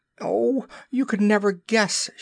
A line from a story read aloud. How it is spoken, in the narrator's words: she cried